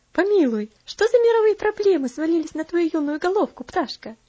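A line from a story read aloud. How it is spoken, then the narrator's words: Laughing question. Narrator (Russian): спросила, смеясь, Аделейд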